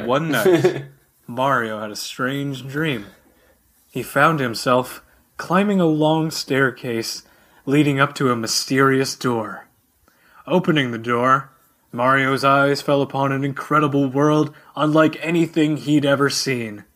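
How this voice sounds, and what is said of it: Dramatic announcer-style narration voice. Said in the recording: “put on my announcer voice ... announcer voice”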